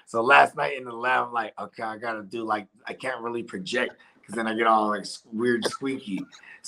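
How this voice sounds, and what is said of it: Raspy, strained recovering voice. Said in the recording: “I'm barely getting my voice back because I haven't had no voice all week ... my regular voice is already raspy as a motherfucker”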